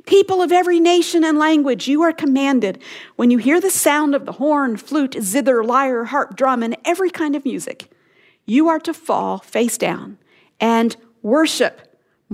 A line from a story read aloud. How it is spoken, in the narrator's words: a herald loudly proclaimed